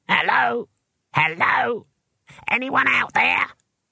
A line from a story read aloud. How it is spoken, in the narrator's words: It was a small and squeaky voice and came from the picture box